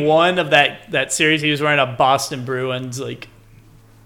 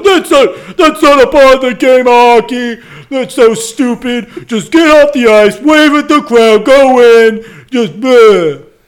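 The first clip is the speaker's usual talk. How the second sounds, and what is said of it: Imitates another person's voice. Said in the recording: “my Don Cherry impression”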